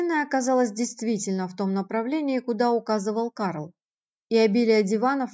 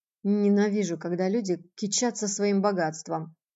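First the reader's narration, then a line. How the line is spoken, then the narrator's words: Muttered under breath. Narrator (Russian): бросил он вполголоса, очевидно, не желая привлекать к себе внимания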